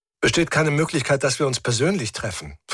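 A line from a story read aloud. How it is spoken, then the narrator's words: Plain question. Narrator (German): fragte ich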